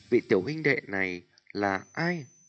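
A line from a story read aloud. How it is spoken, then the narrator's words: Smiling question. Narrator (Vietnamese): mỉm cười hỏi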